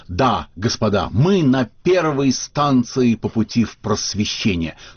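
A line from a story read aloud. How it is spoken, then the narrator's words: Solemn exclamation. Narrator (Russian): при Пушкине кто-то торжественно воскликнул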